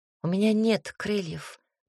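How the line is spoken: Young woman's sad sigh. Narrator (Russian): печально вздохнула девушка

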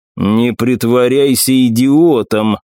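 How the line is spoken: Cold. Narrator (Russian): холодно произнес Яньло

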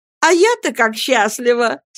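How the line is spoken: Laughing, embarrassed. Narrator (Russian): смеясь и краснея, заявила Софи

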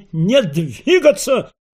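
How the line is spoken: Shout. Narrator (Russian): крикнул своим Фондорин

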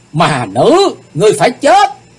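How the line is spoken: Bitter enraged roar. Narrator (Vietnamese): Thật lâu chàng mới uất hận gầm lên

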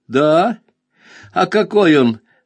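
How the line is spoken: Giggling. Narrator (Russian): она хихикнула

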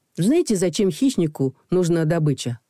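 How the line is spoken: Plain. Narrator (Russian): спросила Акса

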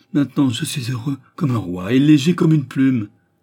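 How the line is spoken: Joyful cry. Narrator (French): s'écria-t-il

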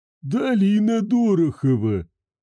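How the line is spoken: Wheezing voice. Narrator (Russian): просипел садовник

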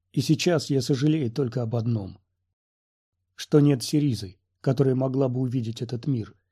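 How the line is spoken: Quiet. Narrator (Russian): тихо закончил за него Оби-Ван

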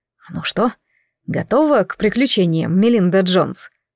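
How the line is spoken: Ingratiating question. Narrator (Russian): спросил он вкрадчивым голосом

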